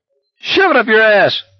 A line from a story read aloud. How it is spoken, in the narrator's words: Barkovich screamed after them